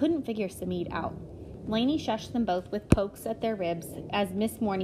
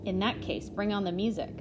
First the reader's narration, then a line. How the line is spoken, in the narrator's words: Samid muttered